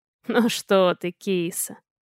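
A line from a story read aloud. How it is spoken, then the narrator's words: Conciliatory, hoarse laugh. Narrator (Russian): Эдик примирительно хрипло рассмеялся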